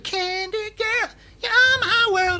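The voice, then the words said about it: Strained falsetto singing. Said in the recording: “my falsetto was letting me down”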